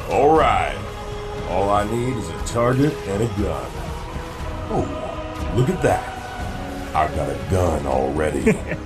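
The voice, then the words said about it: John Wayne impression. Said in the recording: “do the John Wayne voice”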